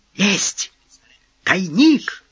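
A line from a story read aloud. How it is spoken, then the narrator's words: Shouting. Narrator (Russian): крикнул Асагава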